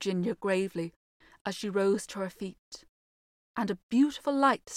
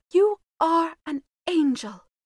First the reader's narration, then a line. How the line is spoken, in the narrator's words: cried the Duke